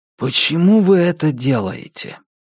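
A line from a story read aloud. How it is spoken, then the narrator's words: Sighing. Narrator (Russian): Патриция вздохнула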